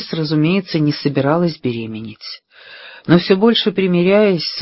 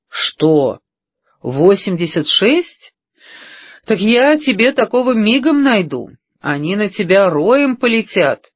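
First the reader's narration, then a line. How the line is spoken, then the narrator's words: Laughing. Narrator (Russian): рассмеялся Бикс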